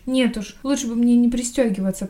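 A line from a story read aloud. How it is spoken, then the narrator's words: Groaning. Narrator (Russian): простонала Сэнди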